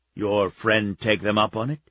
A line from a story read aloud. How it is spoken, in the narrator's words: Czar asked